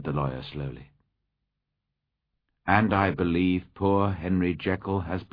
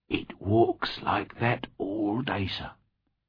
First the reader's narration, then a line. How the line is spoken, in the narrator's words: whispered Poole